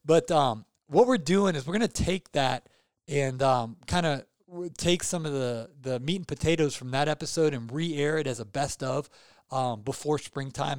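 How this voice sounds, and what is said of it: Hoarse, fading voice with hiccups. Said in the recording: “I got the hiccups and I'm losing my voice”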